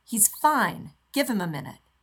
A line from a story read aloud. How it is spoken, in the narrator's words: snaps